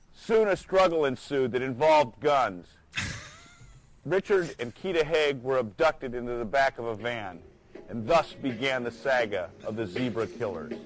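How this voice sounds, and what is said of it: Wisconsin accent, flat vowels. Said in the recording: “he's from your hometown, if you can hear in his accent ... Is he from Wisconsin? ... He's like saga. ... The saga. Like how you say bagel.”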